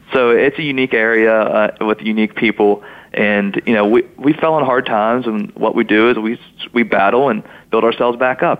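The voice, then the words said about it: Pittsburgh-style Yinzer accent. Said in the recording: “my accent doesn't sound like the Charleston accent. It's a little different. ... I sound more like a Yinzer than I do a Southern West Virginian”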